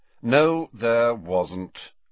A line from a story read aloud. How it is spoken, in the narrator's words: said Snape in a bored voice